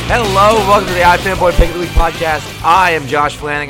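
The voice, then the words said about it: Yelling, loud delivery. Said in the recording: “You don't have to yell. ... I don't know why you're yelling.”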